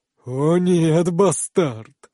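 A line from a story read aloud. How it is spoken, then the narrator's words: Hoarse laughter. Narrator (Russian): хрипло смеется Айтер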